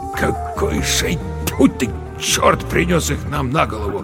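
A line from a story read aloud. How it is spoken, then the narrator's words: Mutter. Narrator (Russian): пробормотал Верещагин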